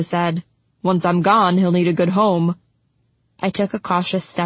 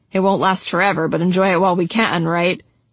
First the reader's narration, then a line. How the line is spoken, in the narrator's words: He grunted